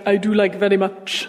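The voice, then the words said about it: Put-on Indian accent. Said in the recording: “Why am I doing an Indian accent?”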